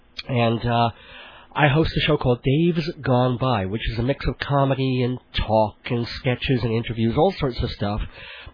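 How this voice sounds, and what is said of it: Ragged, slightly rough voice. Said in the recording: “my voice is a little bit ragged because I came down with a cold”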